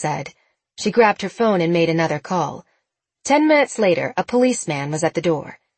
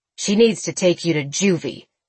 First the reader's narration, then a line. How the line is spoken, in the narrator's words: Bill growled